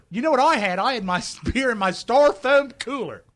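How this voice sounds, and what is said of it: Exaggerated regional accent. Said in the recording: “I love regional accents.”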